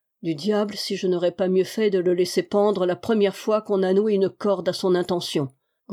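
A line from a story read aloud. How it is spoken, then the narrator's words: Grumble. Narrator (French): grommela-t-il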